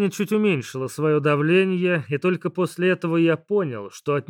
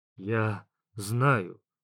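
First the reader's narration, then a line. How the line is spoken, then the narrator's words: Soft, smiling. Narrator (Russian): мягко улыбнулся Дождьбог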